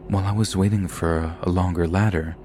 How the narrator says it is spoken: Zimmerman later said

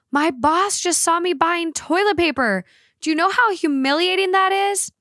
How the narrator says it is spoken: she screamed at me

